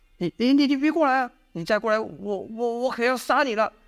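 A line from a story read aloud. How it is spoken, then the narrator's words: Trembling voice. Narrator (Chinese): 他的声音在抖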